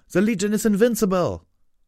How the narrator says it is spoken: cried

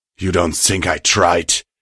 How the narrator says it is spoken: hissed

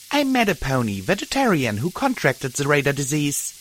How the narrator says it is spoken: I said sharply

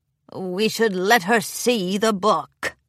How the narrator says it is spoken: a crusty old mare grumbled

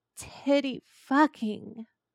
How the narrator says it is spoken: Arthur moans

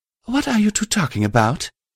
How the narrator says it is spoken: I sighed

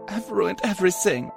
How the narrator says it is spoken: she said as she sobbed into her hoofs

